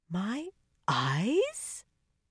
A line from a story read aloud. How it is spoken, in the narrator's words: Catalin said faintly, and then in a slightly incredulous tone